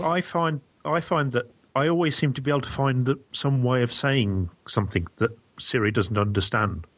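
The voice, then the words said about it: British accent. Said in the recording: “that British accent”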